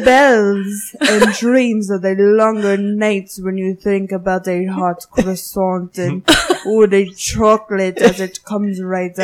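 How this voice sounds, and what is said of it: Put-on French accent. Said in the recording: “when you're doing the French accent”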